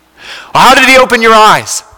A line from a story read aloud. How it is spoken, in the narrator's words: someone asked